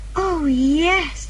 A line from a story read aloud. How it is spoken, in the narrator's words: said Anne happily